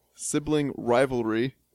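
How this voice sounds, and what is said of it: Very slow deliberate pronunciation. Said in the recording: “say this really slowly”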